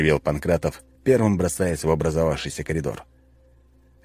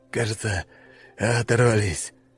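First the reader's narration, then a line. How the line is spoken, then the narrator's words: Breathless exhale. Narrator (Russian): выдохнул Волков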